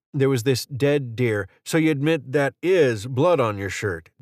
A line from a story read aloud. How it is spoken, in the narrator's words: Dan said